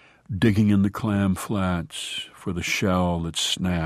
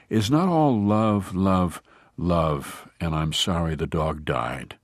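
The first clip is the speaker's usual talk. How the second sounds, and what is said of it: Voice rising, getting louder. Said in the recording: “and now my voice is rising ... here I hear myself loudest”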